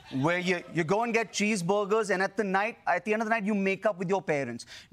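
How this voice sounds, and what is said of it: Speaker's own Indian accent. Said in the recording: “this is the sexiest accent in the world ... more women are having sex with this accent than any other accent”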